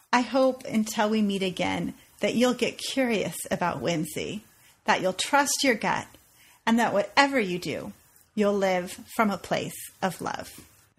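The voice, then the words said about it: French accent. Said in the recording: “notice the French accent there”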